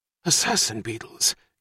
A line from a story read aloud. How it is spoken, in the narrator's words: gasped Frank Murphy